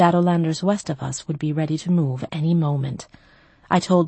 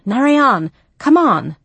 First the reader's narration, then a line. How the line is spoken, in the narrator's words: I shouted